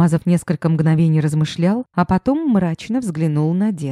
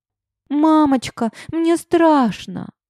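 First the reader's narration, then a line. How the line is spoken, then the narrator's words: Whimpering. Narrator (Russian): захныкала Малинка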